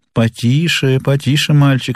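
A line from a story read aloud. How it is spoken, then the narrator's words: Plain. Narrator (Russian): сказал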